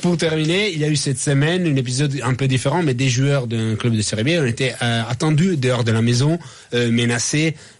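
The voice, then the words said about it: Foreign accent speaking French. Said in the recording (French): “je trouve ça beau dans sa bouche, finalement, des hooligans... On adore son accent.”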